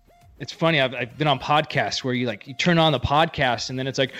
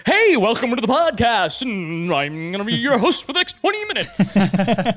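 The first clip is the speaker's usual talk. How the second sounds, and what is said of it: Exaggerated radio host voice. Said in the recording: “the radio voice”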